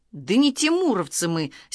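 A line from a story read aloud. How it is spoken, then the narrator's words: Angry declaration. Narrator (Russian): сердито заявил Баранкин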